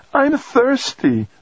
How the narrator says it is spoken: the 5-year-old whined

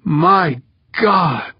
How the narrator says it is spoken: Habib groaned

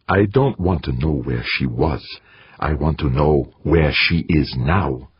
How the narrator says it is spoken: Blinking, a red afterimage burning in his eyes, said through gritted teeth

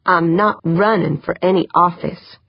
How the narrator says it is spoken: she said firmly

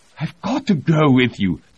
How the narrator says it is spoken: Tony pleaded

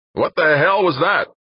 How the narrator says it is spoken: yelled the air traffic controller in Dan's earphones

